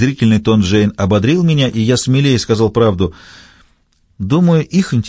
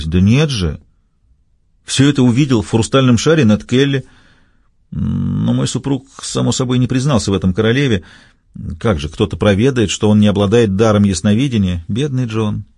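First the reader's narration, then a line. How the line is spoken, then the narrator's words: Sad laugh. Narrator (Russian): грустно рассмеялась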